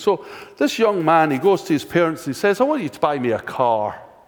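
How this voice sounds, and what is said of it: Scottish accent. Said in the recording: “Scottish, because that's the accent I have”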